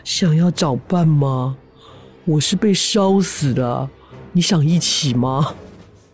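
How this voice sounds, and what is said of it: Very eerie, spooky voice. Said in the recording (Chinese): “用一种非常诡异的声音说”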